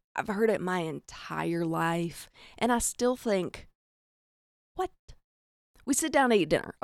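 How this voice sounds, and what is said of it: Southern US accent. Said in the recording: “I'm from the South ... I hear the cornbread in your accent, you hick”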